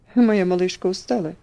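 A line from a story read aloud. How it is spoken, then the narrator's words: Tender question. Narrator (Russian): спросил он, ласково обнимая ее одной рукой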